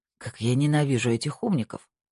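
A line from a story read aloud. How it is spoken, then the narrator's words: Muttering. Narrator (Russian): пробормотала Тина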